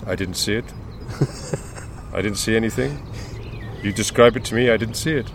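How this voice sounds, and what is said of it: Imitates another person's voice. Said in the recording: “That's my Arsene Wenger impression. ... you were never going to do a good one of that”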